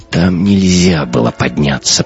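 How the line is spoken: Moaning. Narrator (Russian): простонал капитан

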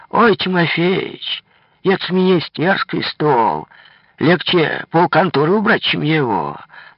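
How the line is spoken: Old woman exclaiming. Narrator (Russian): Старая уборщица конторы Кравчиха воскликнула

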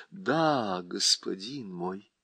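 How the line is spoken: Sad. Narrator (Russian): печально отвечала Уинни

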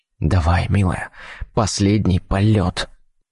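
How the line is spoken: Whisper. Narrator (Russian): прошептал я

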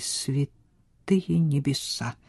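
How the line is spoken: Despairing whisper. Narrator (Russian): прошептал с отчаянием, признавая свое поражение

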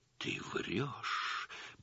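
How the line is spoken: Shaken whisper. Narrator (Russian): прошептала Галина Ивановна побелевшими губами

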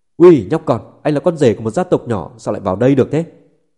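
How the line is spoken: Shouting. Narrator (Vietnamese): Viên Thiệu quát lên

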